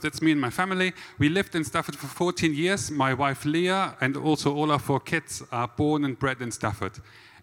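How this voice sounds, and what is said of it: German accent. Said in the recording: “my lovely German accent”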